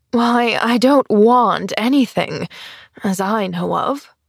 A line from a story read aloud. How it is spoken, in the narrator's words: she sighed